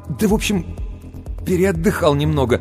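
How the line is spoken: Embarrassed babbling. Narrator (Russian): смущенно лепетал Сергей

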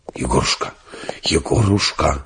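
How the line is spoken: Deep whisper, two voices. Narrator (Russian): раздался густой шепот двух голосов

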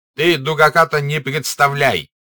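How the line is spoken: Angry, coughing. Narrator (Russian): сказал Денисов, сердито покашливая

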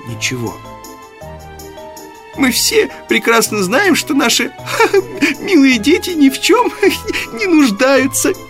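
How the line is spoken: Laughing. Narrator (Russian): рассмеялась миссис Манн

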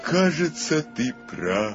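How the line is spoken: Deep sad sighing. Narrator (Russian): сказал, глубоко и печально вздыхая

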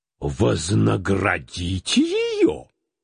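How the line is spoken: Exclamation. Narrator (Russian): воскликнул Теклтон

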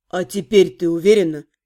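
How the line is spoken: Quiet question. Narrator (Russian): тихо спросил Дориан

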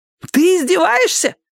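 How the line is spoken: Shouted. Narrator (Russian): закричал Растяпа

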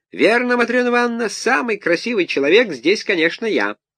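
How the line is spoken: Squeaky voice. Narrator (Russian): Петрушка и пропищал

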